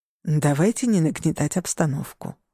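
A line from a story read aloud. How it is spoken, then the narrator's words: Soothing tone. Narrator (Russian): успокаивающим тоном сказал Алессандро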